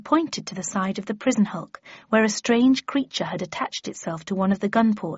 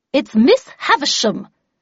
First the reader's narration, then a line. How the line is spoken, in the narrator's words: replied Havisham in a vexed tone